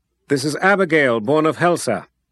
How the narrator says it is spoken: the wizard called out to the people gathered

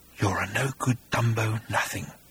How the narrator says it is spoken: whispered the creature

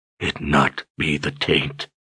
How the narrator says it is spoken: he whispered

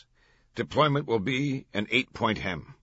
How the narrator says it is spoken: the commander said

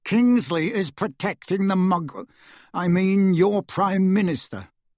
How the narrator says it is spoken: he said through gritted teeth

